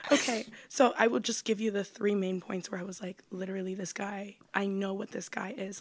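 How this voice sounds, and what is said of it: Raspy, choked-up voice. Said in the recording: “a raspy voice, too. It sounds like you're choking up.”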